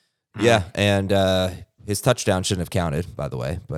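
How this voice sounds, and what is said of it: Usual voice. Nothing is said of it.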